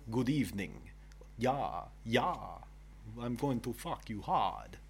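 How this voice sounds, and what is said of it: Count Dracula character voice. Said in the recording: “Like Count Dracula?”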